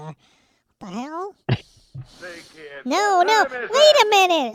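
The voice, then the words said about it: High-pitched helium-like voice. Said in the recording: “What happened to my voice? I don't even have any helium here. ... My voice is still like this.”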